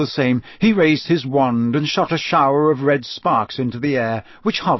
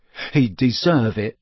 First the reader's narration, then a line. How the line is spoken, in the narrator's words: Cedric muttered